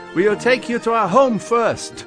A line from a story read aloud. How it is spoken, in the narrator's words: Dasher shouted back to Klaus